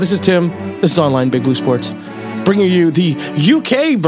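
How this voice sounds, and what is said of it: Usual voice. Nothing is said of it.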